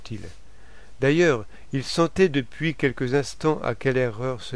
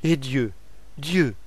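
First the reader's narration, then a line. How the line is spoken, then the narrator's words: Plain. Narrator (French): dit-elle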